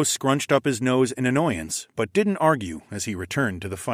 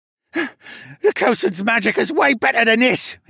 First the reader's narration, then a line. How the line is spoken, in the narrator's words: he grunted